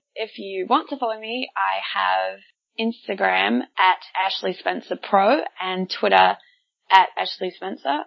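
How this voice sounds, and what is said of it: Broad New Zealand accent. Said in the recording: “my bogan Kiwi accent”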